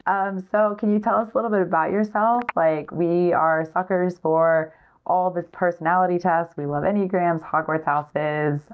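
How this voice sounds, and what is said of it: Hoarse, strained voice. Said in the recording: “I sound terrible because I'm getting over losing my voice.”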